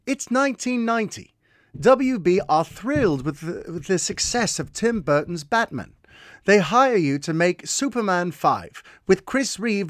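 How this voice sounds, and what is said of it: Imitating a listener's accent. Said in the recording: “I would read his question in his accent.”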